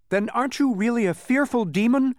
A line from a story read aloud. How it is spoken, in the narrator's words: Milo asked desperately